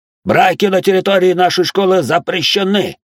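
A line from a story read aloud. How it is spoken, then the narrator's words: Nearly shouting, old man. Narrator (Russian): Только что не закричал один из стариков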